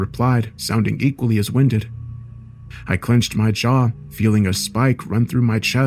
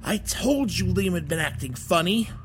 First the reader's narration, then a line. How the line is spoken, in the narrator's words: the more familiar sounding voice spoke, now that the wheezing had calmed down